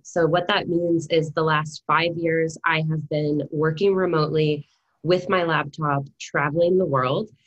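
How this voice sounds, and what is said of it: American accent. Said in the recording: “my lovely American accent, I am not a Kiwi”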